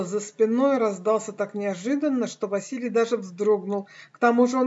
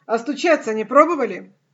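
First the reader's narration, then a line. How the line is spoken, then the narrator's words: Rude, slightly angry. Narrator (Russian): Грубо ответил он, слегка разозлившись и на себя, и на проворного клиента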